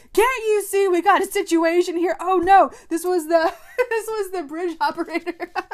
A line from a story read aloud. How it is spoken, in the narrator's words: somebody yells out